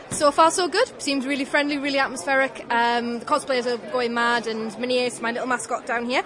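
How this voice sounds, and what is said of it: Slight northern English accent. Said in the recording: “slight northern accent ... Newcastle upon Tyne”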